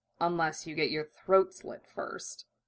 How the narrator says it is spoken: Roy mumbled

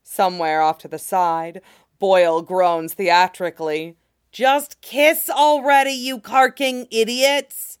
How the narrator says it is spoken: he shouts, hands cupped around his mouth for maximum effect

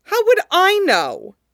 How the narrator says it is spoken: Shun Qingqiu snapped

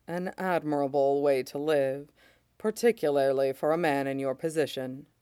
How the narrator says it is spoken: Mace says softly

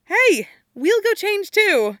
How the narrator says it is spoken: she says brightly

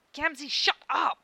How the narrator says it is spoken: Karkat hisses under his breath

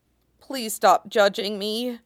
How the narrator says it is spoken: Zhang Qinghua mutters

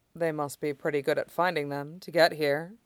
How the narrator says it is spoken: Mai said dryly

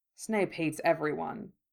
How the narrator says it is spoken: Remus said dryly

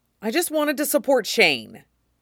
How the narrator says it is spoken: Hayden blurts out

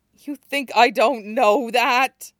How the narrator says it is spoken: Kuro groans

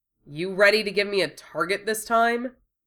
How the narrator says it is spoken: sneered

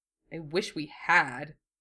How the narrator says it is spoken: Duo muttered

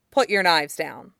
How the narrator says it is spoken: he adds more sharply

